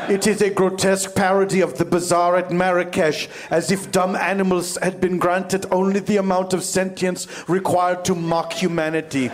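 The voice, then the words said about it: Imperfect put-on accent. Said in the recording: “the accent could be better”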